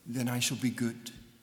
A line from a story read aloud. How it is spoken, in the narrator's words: Victoria quietly replied to them